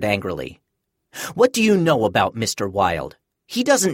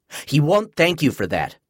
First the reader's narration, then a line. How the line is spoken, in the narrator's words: I answered sharply